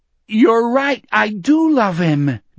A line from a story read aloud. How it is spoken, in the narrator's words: Donnie shouted triumphantly